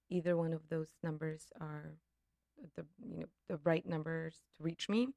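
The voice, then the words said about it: Hoarse, fading voice. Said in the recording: “I'm losing my voice. It's not allergies.”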